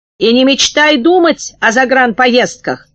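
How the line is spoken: Shouting. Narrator (Russian): кричала она

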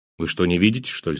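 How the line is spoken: Angry. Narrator (Russian): сказал я зло

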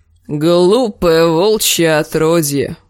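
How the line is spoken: Creaky rasp. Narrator (Russian): проскрипел он

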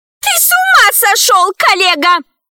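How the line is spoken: Shrill squeal. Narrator (Russian): взвизгнула милая Мила

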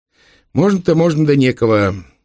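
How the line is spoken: Sighing. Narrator (Russian): вздохнул Ярышка

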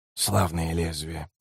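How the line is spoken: Mutter. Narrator (Russian): пробормотал Котильон

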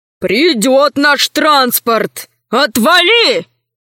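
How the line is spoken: Barking. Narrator (Russian): рявкнул Скорпон

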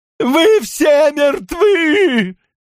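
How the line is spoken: Yelling. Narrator (Russian): заорал он

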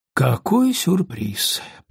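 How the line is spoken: Muttering. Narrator (Russian): пробормотал Том

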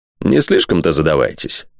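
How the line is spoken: Grumbled. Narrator (Russian): буркнул Спенсер

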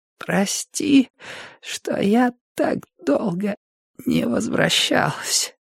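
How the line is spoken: Hoarse voice. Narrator (Russian): хрипит Алли

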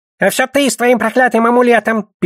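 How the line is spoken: Goblin's squeak. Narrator (Russian): пискнул гоблин

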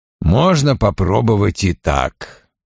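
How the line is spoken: Muttering. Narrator (Russian): пробормотал он

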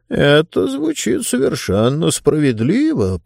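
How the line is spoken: Mumbled. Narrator (Russian): промямлил Бастер

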